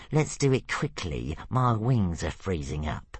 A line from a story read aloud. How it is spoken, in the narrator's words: grumbled Brightclaw